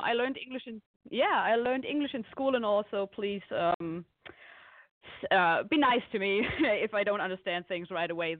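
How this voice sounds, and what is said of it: German accent. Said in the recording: “you have the sexiest accent I've ever heard ... my accent. This is because I'm actually from Germany.”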